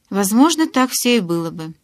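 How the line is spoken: Snort. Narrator (Russian): хмыкнул Эдвард

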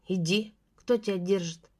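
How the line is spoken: Scoffing. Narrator (Russian): хмыкнул он

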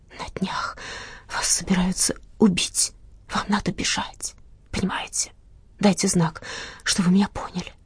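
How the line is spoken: Whisper. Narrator (Russian): она шепнула мне

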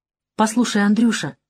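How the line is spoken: Gentle, affectionate tone. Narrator (Russian): сказала Светлана совсем другим ласковым тоном

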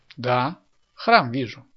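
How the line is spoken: Plain. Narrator (Russian): ответила Татьяна Андреевна

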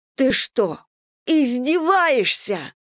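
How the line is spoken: Roar of relief and fury. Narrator (Russian): взревела Элли, которая испытывала одновременно облегчение и ярость

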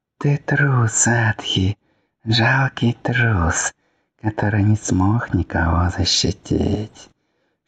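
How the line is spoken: Whispering spirits. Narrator (Russian): шептали духи

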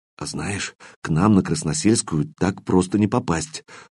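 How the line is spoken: Proud whisper. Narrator (Russian): прошептал Кирилл, гордясь бдительностью постов у себя на севере

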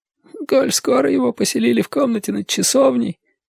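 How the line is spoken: Muttering. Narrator (Russian): пробормотал он

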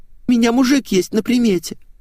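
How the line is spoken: Sobbing confession. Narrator (Russian): всхлипывая, разоткровенничалась Светик

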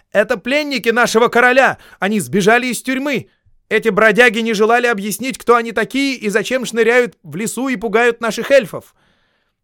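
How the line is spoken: Group shouting. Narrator (Russian): закричали

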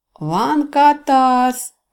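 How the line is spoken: Cheerful reply. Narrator (Russian): весело отозвался маг

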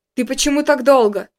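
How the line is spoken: Angry question. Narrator (Russian): спросил я сердито

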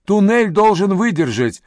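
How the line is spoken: Shouted reply. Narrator (Russian): прокричал в ответ Ю

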